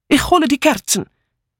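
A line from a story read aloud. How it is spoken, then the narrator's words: Called out. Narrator (German): rief Mitzi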